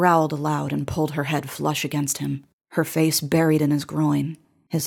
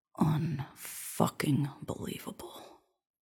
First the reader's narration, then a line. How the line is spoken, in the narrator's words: he murmured